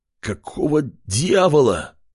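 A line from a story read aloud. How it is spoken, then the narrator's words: Hoarse male rasp. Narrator (Russian): Прохрипел он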